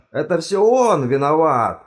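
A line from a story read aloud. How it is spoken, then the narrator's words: Yelling. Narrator (Russian): заорал декан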